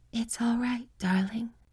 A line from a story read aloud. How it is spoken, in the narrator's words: she breathed, and in her voice was a tenderness I had never imagined